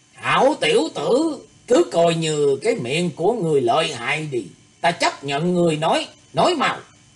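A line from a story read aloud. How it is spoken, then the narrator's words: Harsh, gritted voice. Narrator (Vietnamese): Lão mạnh đầu gằn giọng nói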